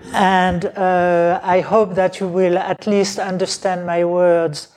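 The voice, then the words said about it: Medium-strong non-native English accent. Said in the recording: “I have a little accent. Some people say very strong. I say medium.”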